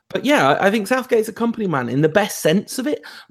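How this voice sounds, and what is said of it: English accent. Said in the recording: “I'm from here and, you know, I speak with this accent”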